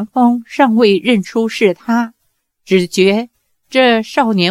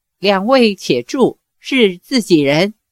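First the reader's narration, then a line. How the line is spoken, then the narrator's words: Laughing. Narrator (Chinese): 杨过……笑道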